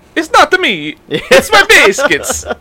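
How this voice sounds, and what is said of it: Put-on Italian accent. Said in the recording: “That's my only Italian accent.”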